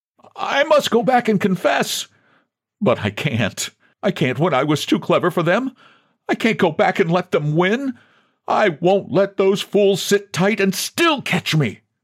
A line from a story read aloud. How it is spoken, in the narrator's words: woke from a half-sleep more vision-haunted than any waking thought and cried